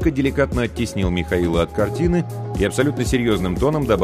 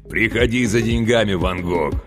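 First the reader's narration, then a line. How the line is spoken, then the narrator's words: Joyful bass over phone. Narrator (Russian): радостно пробасил в трубку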